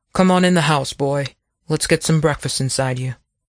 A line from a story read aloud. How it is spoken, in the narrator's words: Abner sighed, started to say something, thought better of it, and instead said